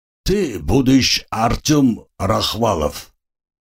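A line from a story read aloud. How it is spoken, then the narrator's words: Accented question. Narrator (Russian): с акцентом спросил один из них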